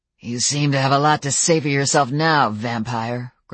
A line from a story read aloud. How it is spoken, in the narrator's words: growled Samuel